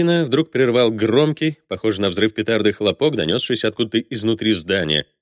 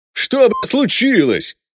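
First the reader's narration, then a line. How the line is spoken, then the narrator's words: Barking, finally regaining speech. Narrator (Russian): гаркнул на него сержант-подполковник, обретя, наконец, дар речи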